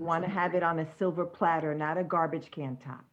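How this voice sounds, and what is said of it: New York accent. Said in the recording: “my New York accent came out.”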